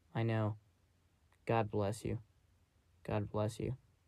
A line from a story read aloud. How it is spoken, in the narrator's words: Miss Harold murmured